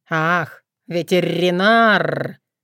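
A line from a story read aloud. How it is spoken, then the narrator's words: Contemptuous drawl. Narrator (Russian): пренебрежительно протянул Крат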